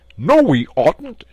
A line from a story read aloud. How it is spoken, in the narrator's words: shouted the mole, with his mouth full